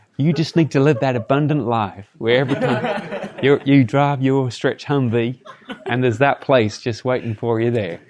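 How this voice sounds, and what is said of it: Put-on American accent. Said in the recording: “my American accent”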